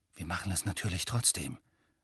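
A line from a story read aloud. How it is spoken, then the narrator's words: Quiet. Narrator (German): sagte er leise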